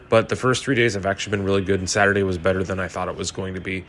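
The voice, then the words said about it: Tired, worn-out voice. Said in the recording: “I am tired as fuck, as you probably hear it in my voice.”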